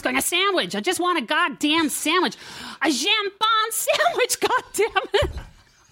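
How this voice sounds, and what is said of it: Bitchy American accent. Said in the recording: “fucking really good bitchy American accent. ... That was fantastic.”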